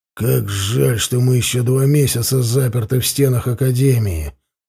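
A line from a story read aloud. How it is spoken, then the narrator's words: Grumbling. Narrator (Russian): проворчал он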